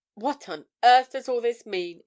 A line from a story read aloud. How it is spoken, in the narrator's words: exclaimed Breton